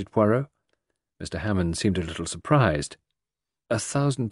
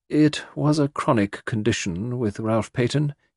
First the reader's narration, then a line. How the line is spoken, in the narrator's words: said, dryly